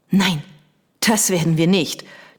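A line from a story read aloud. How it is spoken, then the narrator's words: Hissing. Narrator (German): zischte sie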